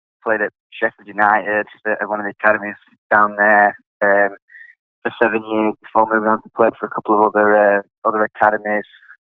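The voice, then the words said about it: Northern English accent. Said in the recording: “I've got a strange accent, so I'm from England, Sheffield, which is in the north of England”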